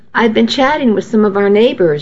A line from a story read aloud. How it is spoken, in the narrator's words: she said